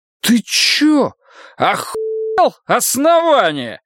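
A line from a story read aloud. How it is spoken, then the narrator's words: Slurred drunken yell. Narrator (Russian): Заплетаясь, заорал лейтенант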